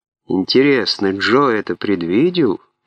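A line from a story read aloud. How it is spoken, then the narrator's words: Mutter. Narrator (Russian): пробормотал он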